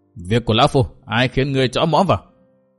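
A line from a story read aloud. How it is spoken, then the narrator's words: Angry reply. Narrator (Vietnamese): Trấn Thiên giận dữ đáp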